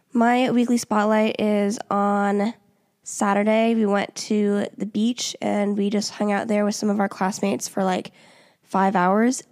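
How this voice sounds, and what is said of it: Congested voice from a cold. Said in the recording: “since I've had my cold, so I'm once again going to apologize for my voice. I'm on the downslope”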